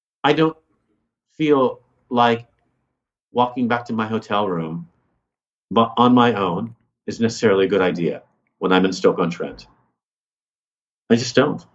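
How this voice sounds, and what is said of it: American accent. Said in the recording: “my accent ... explain why I'm American ... what really gets people going is my accent”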